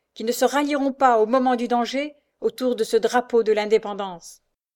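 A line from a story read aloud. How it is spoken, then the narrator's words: Thundering voice. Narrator (French): s'écrie-t-il d'une voix tonnante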